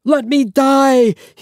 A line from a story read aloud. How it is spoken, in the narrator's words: he cried out again